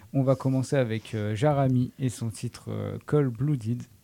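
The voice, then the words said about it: Attempted English accent. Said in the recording (French): “Je crois que c'est ton meilleur accent depuis novembre.”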